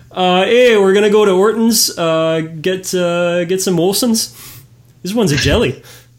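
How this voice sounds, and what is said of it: Bad put-on Canadian accent. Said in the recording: “I do a bad take on their accent”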